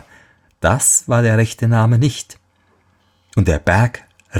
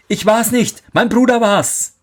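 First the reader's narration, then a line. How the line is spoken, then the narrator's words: Called out. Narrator (German): rief er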